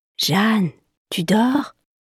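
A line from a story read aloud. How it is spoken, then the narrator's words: Gentle talking goldfish. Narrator (French): demande doucement Igor, son poisson rouge qui sait parler et voler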